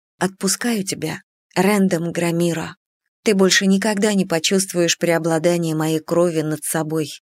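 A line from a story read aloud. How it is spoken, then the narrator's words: Quiet but confident. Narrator (Russian): произнесла я тихо, но уверенно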